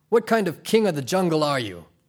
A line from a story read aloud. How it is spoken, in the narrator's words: Crispin laughed heartily and then sighed